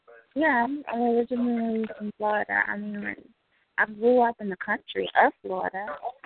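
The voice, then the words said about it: Southern US accent. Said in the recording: “You got that that that that Cajun accent in the bag. I mean, you just sound real southern now ... that sweet southern accent”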